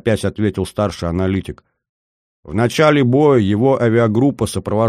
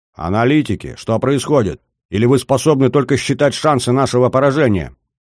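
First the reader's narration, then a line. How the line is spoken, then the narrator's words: Barking. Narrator (Russian): рявкнул Нельсон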